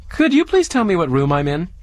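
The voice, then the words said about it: Small, timid voice. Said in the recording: “I said in a small voice.”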